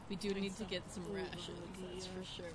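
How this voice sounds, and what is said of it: Thick put-on character accent. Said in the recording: “I'm trying to get my accent back. ... Seems thicker than normal.”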